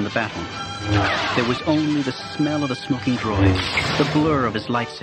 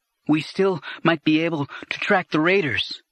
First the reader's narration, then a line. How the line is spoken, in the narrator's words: Anakin said, panting